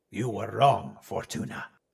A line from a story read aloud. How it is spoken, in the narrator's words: he growled